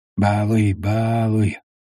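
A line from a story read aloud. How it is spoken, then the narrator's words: Said quietly. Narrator (Russian): тихо сказал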